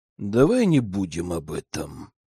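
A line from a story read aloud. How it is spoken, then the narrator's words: Reluctant, through gritted teeth. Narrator (Russian): процедил я, не желая говорить о мисс Дисонг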